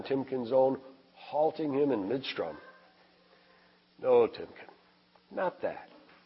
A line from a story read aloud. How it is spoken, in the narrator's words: Jake said softly